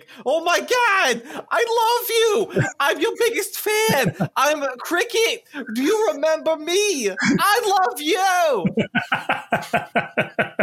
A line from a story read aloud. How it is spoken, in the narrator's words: I'm just going to shriek